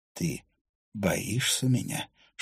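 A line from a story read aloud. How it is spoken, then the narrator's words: Whispered question. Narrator (Russian): шепотом поинтересовался Финна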